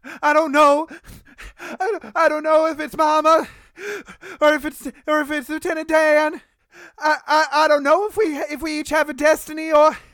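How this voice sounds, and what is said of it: Stuttering Midwestern Forrest Gump voice. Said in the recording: “do that Midwestern accent... More into a stutter here. I need more. Just got done crying and less Forrest Gump.”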